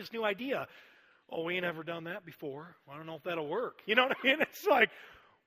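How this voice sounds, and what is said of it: Put-on Southern US accent. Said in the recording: “I don't know why I'm using Southern accents all day ... It's just the only accent I think I can do.”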